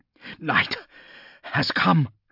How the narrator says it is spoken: gasped Saul

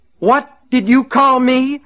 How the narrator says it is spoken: screamed

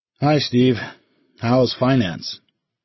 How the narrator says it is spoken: Ordner groaned theatrically

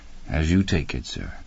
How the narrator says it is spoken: Stevens replied gently

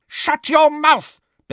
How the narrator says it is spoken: Bellatrix shrieked

